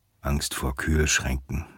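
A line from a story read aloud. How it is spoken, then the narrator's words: Murmured. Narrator (German): murmelt Herb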